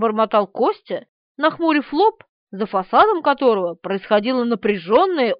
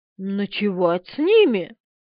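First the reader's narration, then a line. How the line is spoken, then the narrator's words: Mumble. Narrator (Russian): пробормотал Бунимович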